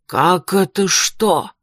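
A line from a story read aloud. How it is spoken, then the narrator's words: Irritated exhale. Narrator (Russian): раздраженно выдохнул он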